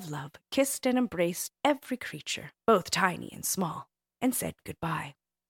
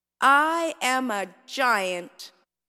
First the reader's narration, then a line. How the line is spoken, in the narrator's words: Gluppy exclaimed in their biggest, most boisterous voice